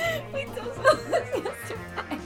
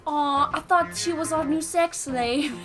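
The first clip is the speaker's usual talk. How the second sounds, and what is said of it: Weak attempt at British accent. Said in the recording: “you gotta say it in a British accent ... I can't do it. ... Is that Irish? ... I can't do accents.”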